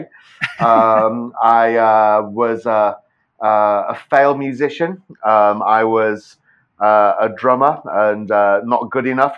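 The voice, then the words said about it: British accent. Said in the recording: “as you can probably tell from my accent, I did not grow up in Tennessee. I grew up in the UK.”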